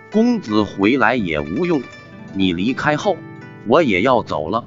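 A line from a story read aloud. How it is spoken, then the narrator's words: Woman's cold voice. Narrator (Chinese): 女子冷冷的道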